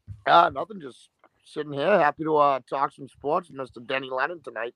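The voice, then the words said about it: Boston accent. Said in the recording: “that man you just heard with that Boston accent”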